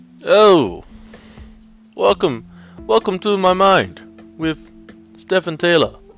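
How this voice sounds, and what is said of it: Bad put-on Italian accent. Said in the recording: “This is a really bad Italian accent”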